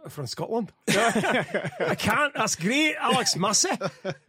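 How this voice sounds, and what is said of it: Attempted Scottish accent. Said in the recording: “Can you do a Scottish Alex Massie accent?”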